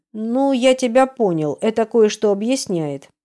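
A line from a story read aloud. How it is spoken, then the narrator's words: Plain. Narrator (Russian): говорит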